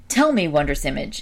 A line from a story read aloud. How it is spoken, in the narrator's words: exclaimed Jason